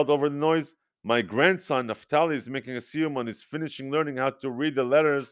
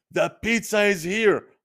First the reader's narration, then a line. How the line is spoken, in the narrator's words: Robert Wexler shouted